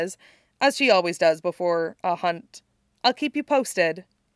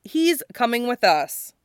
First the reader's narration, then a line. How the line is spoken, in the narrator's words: Scott says firmly